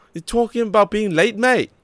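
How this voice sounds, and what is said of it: Terrible put-on Australian accent. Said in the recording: “that was a terrible accent.”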